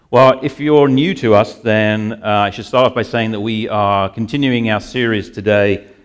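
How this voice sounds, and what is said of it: Speaks with a noticeable accent. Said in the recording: “it's either my accent”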